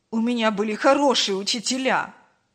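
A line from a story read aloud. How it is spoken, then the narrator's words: Snapping back. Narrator (Russian): Огрызнулся Павел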